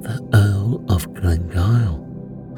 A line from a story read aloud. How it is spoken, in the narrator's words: said Brown sadly